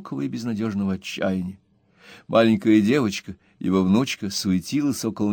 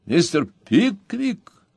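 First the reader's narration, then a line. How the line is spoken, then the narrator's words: Loud exclamation. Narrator (Russian): громко воскликнул Джоб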